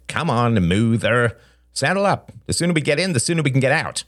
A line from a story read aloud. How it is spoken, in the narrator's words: Justin snapped